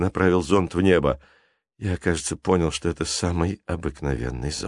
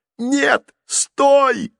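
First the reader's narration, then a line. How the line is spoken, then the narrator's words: Two voices yelling together. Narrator (Russian): завопили сразу оба поджигателя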